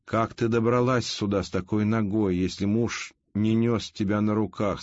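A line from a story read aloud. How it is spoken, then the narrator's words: Plain. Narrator (Russian): спросил Лавр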